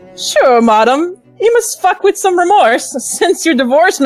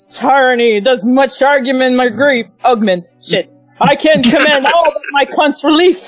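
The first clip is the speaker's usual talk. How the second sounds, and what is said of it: Deeper, more masculine character voice. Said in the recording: “can you do Cuntagracia in your more masculine voice?”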